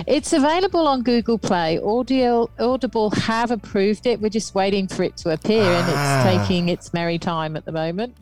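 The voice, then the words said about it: Manchester English accent. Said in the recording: “my Manchester accent. It's terrible.”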